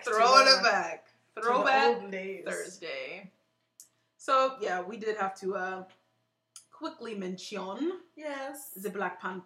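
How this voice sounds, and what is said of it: Put-on British accent. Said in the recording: “I don't know why I'm talking in a British accent.”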